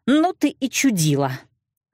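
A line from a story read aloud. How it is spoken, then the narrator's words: Angry blurting. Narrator (Russian): зло выпалила я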